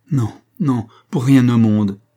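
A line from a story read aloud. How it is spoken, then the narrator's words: Exclaiming. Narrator (French): s'écria-t-elle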